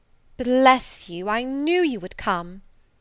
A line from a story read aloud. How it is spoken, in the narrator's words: exclaimed Mrs